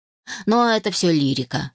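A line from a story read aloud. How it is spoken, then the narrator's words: Smirking grunt. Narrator (Russian): хмыкнул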